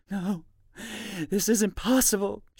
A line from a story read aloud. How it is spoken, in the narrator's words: she whimpers